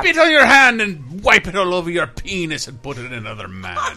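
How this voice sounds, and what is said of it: Pirate voice, mixed accents. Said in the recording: “I was doing it as a pirate, a butt pirate ... That was like all accents in one.”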